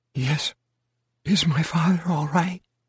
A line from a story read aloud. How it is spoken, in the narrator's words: little more than a whisper, and husky from her own tears